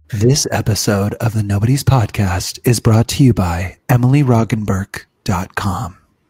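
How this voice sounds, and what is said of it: Mock serious announcer voice. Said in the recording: “Ew, why are you talking like that? ... This is my serious voice.”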